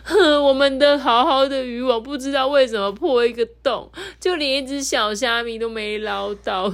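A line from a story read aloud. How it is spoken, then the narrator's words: Sobbing little foxes. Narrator (Chinese): 三号、四号小狐狸啊，哭哭啼啼的说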